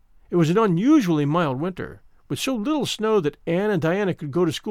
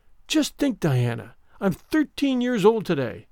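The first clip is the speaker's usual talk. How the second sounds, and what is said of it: Awed, wondering voice. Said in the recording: “in an awed voice”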